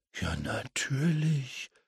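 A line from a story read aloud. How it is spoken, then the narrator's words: Muttered to himself. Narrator (German): murmelte James vor sich hin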